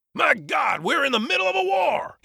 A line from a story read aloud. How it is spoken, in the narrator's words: hollered at the top of his lungs